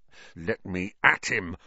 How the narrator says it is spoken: Ron growled

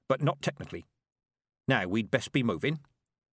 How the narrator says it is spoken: said Granny Weatherwax, and added quickly

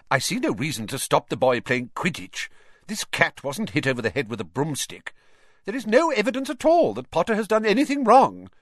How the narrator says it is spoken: said Professor McGonagall sharply

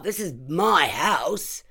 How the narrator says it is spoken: he shouted

